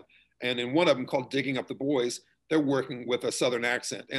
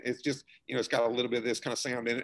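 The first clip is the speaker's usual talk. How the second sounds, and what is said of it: Put-on Appalachian Southern accent. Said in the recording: “Appalachian kind of Southern, sort of a Kentucky kind of sound ... mine's going to fluctuate a little bit”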